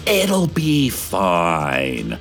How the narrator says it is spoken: the city council hissed

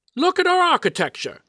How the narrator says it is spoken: he exclaimed

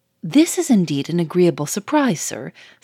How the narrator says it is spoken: said the manager, cheerfully

